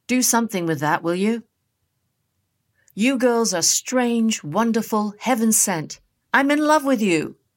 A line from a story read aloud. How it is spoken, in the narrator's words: Delta called out to him